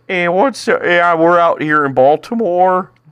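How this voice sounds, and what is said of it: Put-on Baltimore accent. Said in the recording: “Can we do a Baltimore accent?”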